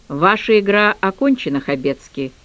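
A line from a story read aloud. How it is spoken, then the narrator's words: Dry pronouncement. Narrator (Russian): сухо изрекла я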